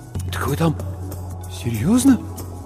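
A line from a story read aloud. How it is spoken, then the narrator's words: Mumbling with trembling lips. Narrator (Russian): Бормочу, а у самого губы дрожат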